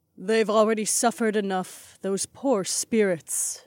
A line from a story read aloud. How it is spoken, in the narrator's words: Aliona sighed